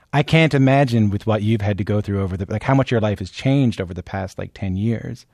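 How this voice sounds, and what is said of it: Regional Canadian accent. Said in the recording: “I think you can hear the way I talk right now ... I'm from a part of the Canada that has an accent ... I love your accent.”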